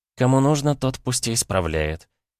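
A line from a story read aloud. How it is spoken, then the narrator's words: Calm, bordering on rude. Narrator (Russian): совершенно спокойно, но на грани хамства в текущей ситуации ответила Кирана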